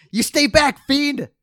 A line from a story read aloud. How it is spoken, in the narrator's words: shout